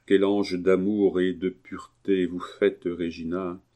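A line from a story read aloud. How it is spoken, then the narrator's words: Murmuring man. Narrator (French): murmura-t-il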